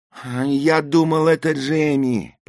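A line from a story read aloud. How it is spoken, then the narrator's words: Moaned. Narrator (Russian): простонал я, зажмурившись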